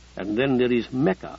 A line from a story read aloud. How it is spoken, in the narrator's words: Abdi Kadir said dryly